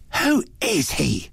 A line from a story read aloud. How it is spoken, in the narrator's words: she demanded fiercely